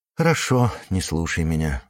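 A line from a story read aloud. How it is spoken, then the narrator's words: Sighing. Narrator (Russian): вздохнул Юрка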